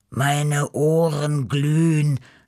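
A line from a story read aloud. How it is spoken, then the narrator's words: Groaning. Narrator (German): stöhnte Beppo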